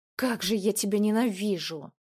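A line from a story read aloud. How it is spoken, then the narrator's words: Through gritted teeth. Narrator (Russian): процедила Полина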